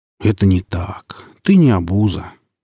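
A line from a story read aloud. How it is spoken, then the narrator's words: Soft, gentle. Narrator (Russian): мягко сказал я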